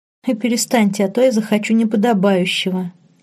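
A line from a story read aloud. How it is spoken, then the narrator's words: Giggling. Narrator (Russian): хихикнула Лорен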